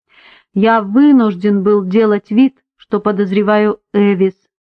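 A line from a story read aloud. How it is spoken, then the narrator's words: Plain. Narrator (Russian): ответил он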